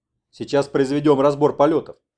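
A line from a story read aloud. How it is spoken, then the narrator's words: Stern. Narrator (Russian): строго заявил Куров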